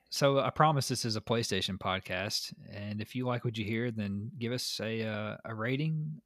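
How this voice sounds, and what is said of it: Slight Southern American accent. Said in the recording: “Mine's a little bit more Southern for sure. I've got that sweet Southern sultry scintillating sound”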